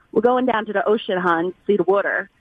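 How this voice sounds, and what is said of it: Put-on Baltimore accent. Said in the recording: “Give me your best Baltimore accent. Sound like one of your friends”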